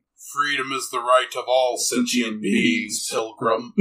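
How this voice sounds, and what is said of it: Optimus Prime character voice. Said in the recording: “Optimus Prime sounds like John Wayne”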